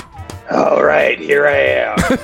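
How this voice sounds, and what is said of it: Imitates the Candyman character's voice. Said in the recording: “your Candyman impersonation? Nicely done.”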